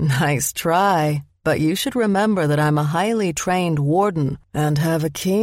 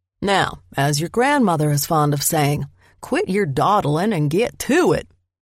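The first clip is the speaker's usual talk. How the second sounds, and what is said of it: Attempted Southern American accent. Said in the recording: “His attempt at a southern accent”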